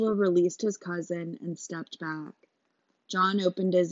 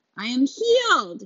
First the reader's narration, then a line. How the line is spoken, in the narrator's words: yelled